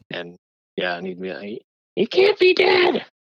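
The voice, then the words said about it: Muppet character voice impression. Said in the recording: “my Gonzo impression”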